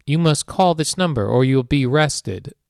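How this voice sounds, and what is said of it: Imitated robotic computer voice. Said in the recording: “robot voice ... I get the computer voice going”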